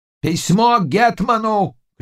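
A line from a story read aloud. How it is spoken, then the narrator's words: Old man shouting. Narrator (Russian): кричал старый казак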